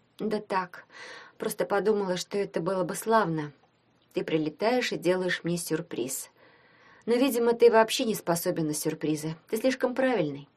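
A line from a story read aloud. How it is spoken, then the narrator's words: Detached voice. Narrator (Russian): сказала отрешенным голосом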